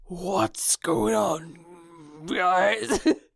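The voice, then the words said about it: Demon voice. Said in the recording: “demon voice underneath, but I don't think it worked ... your demon voice”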